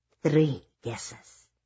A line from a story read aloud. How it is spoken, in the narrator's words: a man whispered into her ear in an extremely affected French accent